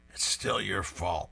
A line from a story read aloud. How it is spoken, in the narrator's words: Beetle mutters through the bandages